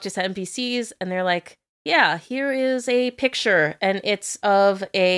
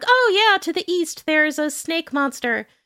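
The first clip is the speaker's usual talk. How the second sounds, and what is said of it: Video game NPC character voice. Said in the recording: “that your NPC impression? ... Yes. ... That was great. I would nominate you for Golden Globe.”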